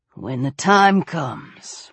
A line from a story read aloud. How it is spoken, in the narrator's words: Weller murmured